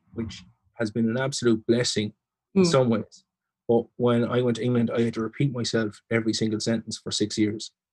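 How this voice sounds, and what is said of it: Strong Irish Leitrim accent. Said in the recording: “as you can hear, have quite a strong Leitrim accent”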